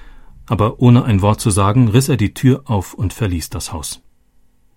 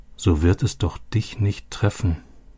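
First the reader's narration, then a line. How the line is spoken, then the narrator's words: Soft repetition. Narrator (German): wiederholte Robbie leise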